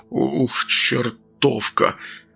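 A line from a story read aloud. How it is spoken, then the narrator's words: Muttered. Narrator (Russian): пробормотал он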